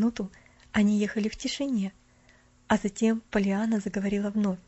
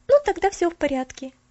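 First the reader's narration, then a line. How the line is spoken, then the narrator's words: Cheerful. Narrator (Russian): весело сказала она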